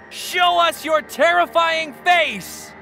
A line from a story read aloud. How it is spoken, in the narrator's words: Charles shouted